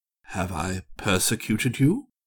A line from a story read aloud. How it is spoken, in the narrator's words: With an effort, he said in a soft voice